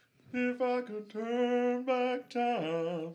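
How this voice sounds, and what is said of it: Sings in a higher-pitched imitated voice. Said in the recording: “Do a Cher impression. ... Like an octave higher.”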